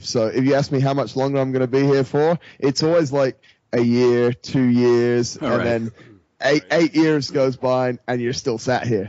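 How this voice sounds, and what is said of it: Mixed Australian and British accent. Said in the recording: “you have an Australian accent mixed with a British accent mixed with whatever the Dubai landscape is”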